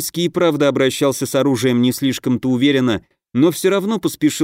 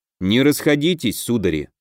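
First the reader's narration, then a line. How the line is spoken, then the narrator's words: Gloomy. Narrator (Russian): мрачно проговорил Дельвик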